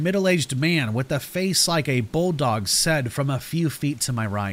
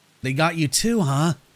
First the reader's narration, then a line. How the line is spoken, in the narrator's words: the old woman asked in a weak, strained voice